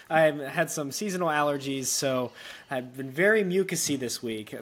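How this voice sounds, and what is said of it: Slightly raspy, congested voice. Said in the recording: “I'm getting over my little raspy.”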